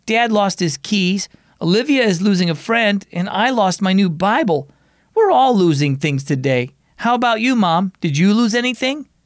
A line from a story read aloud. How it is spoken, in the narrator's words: Mom laughed